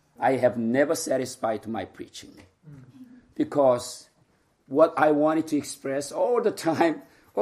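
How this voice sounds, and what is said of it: Mixed Korean, Filipino and British accent. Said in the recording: “my Korean accent, Filipino accent, British accent, together with a little bit local accent ... so you can see the mixture”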